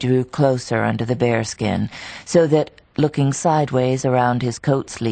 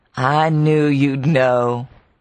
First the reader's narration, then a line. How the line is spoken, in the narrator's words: He laughed and answered